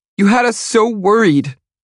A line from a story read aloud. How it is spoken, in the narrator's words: she shouts through her tears